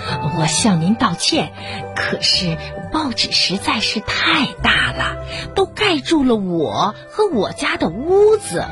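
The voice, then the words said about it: Soft, quiet speaking voice. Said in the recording (Chinese): “青蛙小声地说”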